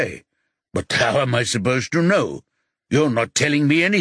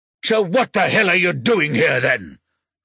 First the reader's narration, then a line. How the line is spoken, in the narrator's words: Rocky roars